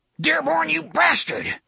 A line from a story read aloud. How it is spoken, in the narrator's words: Hash Renfrew spat